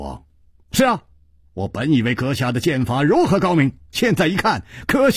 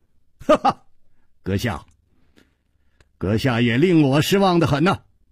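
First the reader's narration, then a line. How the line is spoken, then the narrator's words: Laughing. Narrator (Chinese): 楚留香笑着说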